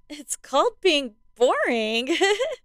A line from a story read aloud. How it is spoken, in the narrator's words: Katie giggled